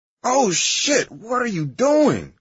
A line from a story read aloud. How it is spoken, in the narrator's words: I screamed, waking up in a panic of discomfort